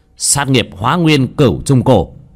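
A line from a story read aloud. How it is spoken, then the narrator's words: Shouted. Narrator (Vietnamese): Bác Cổ hét lên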